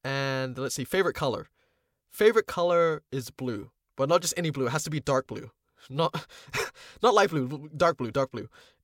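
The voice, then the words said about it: New Zealand accent with a lilt. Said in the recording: “I'm a Filipino voice actor based in New Zealand ... in terms of nationality, I'm a Kiwi. That's why my accent's like got a bit of a lilt.”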